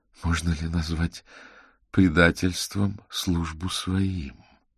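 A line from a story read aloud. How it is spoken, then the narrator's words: Empress speaking quietly. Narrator (Russian): тихо проговорила императрица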